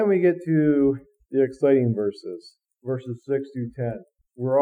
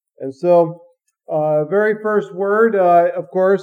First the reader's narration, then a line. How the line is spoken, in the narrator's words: the great multitude shouts out again